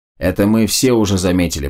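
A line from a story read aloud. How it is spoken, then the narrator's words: Grumbling. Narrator (Russian): проворчал Макс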